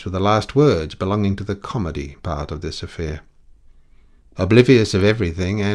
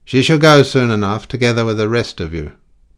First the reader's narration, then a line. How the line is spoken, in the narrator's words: the man personating the inspector judged it expedient to say roughly